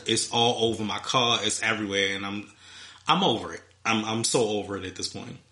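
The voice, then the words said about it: Stuffed-up congested voice. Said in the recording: “I sound stuffed up”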